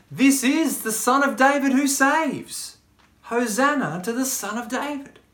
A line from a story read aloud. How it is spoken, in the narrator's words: they cried out